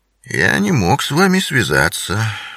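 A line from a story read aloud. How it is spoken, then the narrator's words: Dry, curt. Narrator (Russian): сухо произнес Бингам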